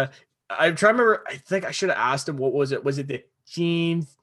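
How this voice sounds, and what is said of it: Usual voice. Nothing is said of it.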